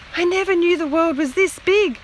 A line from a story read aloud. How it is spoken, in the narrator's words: she gasped